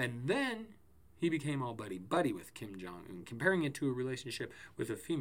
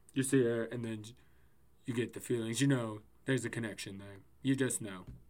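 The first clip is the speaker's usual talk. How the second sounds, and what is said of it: Poor imitation of another person's voice. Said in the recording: “I know my Trump is ... My terrible ass Trump impersonation.”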